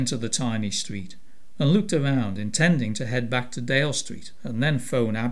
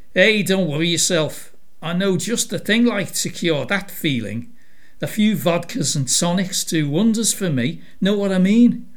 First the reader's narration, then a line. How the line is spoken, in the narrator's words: Victoria laughed